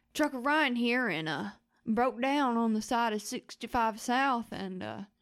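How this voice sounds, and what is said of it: Put-on hick accent. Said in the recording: “He does this hick accent.”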